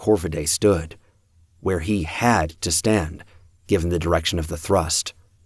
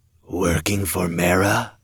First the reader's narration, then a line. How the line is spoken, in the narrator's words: Corviday murmured